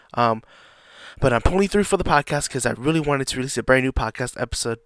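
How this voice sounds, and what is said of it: Raspy voice, slightly sick. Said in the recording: “I am a little bit under the weather. My voice might sound a little raspy. You might be hearing some coughing here and there.”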